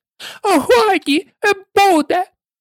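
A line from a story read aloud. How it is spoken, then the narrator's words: Shrieking queen. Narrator (Ukrainian): верещала королева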